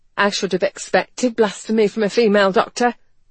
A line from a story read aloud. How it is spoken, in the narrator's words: she snapped